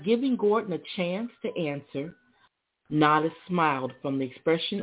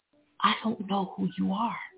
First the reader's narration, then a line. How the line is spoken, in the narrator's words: he whispered